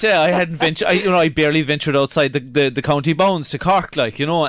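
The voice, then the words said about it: Irish Kerry accent. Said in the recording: “I love listening to your Kerry accent.”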